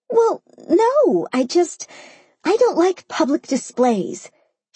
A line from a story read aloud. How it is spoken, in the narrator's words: she sputtered, almost going under